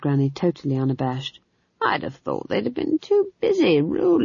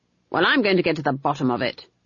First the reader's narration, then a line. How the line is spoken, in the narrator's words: snapped Granny